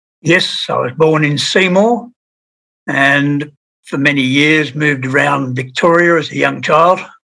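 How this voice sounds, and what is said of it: Educated, British-sounding accent. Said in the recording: “your accent is very educated, so, you know, it smacks of the UK”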